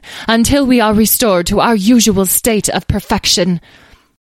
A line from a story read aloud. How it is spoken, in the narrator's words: interrupted one of the fairies in an imperious tone